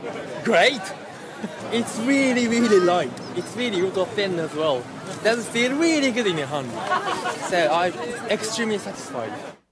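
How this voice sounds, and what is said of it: British-Japanese accent. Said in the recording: “Sort of a British-Japanese accent.”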